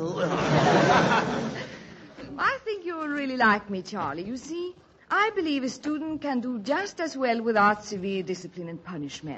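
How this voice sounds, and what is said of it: Charming Swedish accent. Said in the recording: “a very charming accent ... I'm Swedish”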